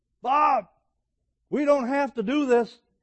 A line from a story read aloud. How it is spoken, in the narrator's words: the head coach yells up